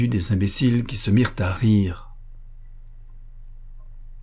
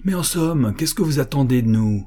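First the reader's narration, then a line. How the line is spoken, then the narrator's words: Exclaiming. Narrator (French): s'écria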